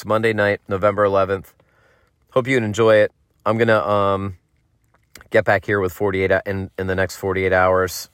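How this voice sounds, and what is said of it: Hoarse, fading voice. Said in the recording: “Sorry I'm losing my voice here”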